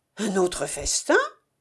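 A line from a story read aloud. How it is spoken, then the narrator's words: Surprised exclamation. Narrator (French): s'écria Nambok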